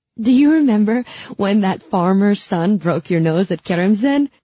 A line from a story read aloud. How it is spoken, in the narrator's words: I gasped between fits